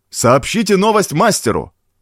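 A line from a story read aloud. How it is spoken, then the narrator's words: Shouted. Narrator (Russian): крикнул Навсеноплюй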